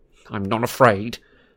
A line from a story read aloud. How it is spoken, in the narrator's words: snarled Malfoy